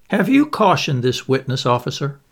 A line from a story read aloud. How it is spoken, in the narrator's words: inquired the coroner, turning sharply